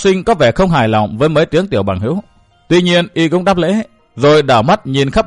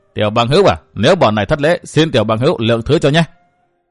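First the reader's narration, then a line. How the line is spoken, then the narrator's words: Laughing loudly. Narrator (Vietnamese): Người lùn mập cười lớn thốt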